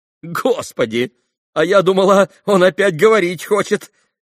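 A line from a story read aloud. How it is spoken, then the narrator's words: Nervous exclamation. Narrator (Russian): нервозно воскликнула Грушенька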